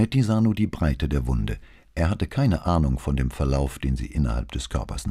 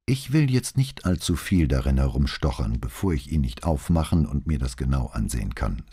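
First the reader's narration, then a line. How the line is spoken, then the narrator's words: Plain. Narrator (German): sagte Rizzardi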